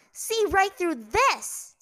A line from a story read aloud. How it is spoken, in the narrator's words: Ty Lee yelled out